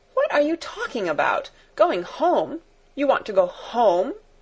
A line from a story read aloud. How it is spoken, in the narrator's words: exclaimed Fräulein Rottenmeier, her anger rising